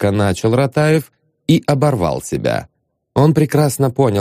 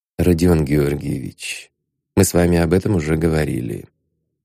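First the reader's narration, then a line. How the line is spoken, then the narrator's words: Quiet speech. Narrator (Russian): тихо сказал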